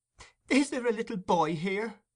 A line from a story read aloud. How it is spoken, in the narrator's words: inquired Nancy with a preliminary sob